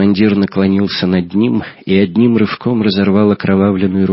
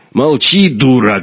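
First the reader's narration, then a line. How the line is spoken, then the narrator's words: Menacing growl. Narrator (Russian): грозно рыкнул Ковтун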